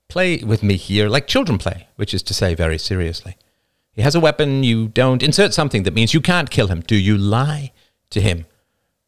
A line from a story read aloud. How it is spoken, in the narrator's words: Roman snorted